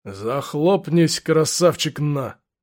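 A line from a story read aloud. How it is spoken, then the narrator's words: Quiet, weighty rebuke. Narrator (Russian): негромко, но веско отдернул его сержант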